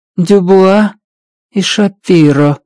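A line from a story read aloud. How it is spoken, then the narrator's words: Flat colorless voice. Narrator (Russian): бесцветным голосом произнесла она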